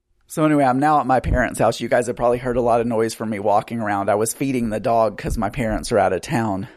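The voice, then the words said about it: Out of breath while talking. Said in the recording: “I'm out of breath because I'm trying to walk around, feed the dog, record all at the same time.”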